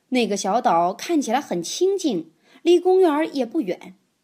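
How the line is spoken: Quacking. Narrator (Chinese): 马拉先生嘎嘎叫道

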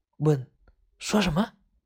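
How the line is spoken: Quiet. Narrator (Chinese): 毛毛小声说

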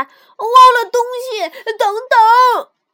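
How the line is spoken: Loud shout while running. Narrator (Chinese): 小熊举着包使劲儿的跑，一边使足力气大声喊

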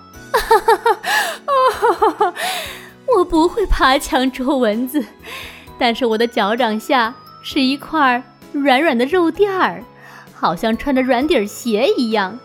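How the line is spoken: Cat, hearty laughter. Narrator (Chinese): 大花猫哈哈大笑

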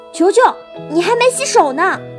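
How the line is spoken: Angry. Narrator (Chinese): 细菌大王怒气冲冲地

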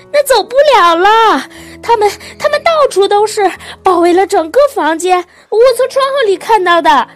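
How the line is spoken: Shouting. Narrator (Chinese): 斯塔福德太太嚷道

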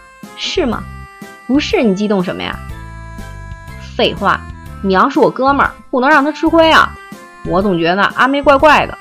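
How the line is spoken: Scoffing laughter over phone. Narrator (Chinese): 电话里的桃香嗤笑连连

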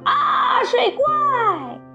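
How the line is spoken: Excited shout. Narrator (Chinese): 奥特激动地喊道

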